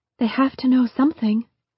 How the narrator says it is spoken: Angela said in a quiet and reserved voice

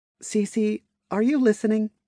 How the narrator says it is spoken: She called out in her mind, not sure if the digital entity would monitor all of the players

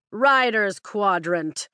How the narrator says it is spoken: Panchek shouts, his voice carrying across the courtyard

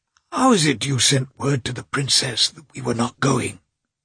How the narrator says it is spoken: he said in an irritable whisper, his voice failing him

